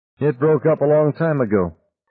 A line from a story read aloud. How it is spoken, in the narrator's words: Tom said evenly